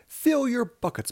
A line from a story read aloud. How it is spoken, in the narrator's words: Muggle-Wump cried